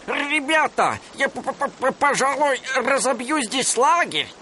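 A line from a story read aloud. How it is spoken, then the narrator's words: Shouting. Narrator (Russian): крикнул он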